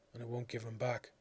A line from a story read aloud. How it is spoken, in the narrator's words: said softly